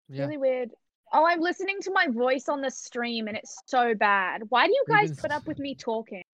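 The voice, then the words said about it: Australian accent sounding New Zealand. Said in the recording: “you have good accent ... You sound like you're from New Zealand ... you have like a New Zealand accent”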